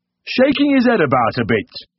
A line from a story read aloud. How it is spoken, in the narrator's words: boomed